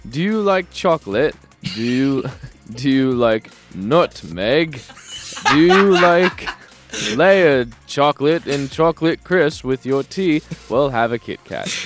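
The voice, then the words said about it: Poor put-on British accent. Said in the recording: “in the UK ... it's the worst accent ever on my part ... I thought it was all right until you got to the word nutmeg, and it really fell apart there ... That was South African and German ... it was a little bit South African”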